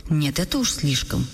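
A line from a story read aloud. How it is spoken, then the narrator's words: Exclaimed. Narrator (Russian): воскликнула госпожа Штальбаум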